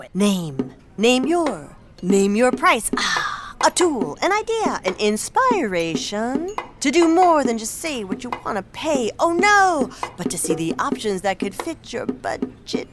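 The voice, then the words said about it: Beat poet impression. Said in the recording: “my impression of a beat poet”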